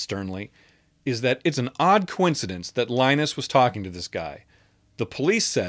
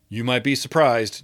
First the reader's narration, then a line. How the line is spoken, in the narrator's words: Justin replied evenly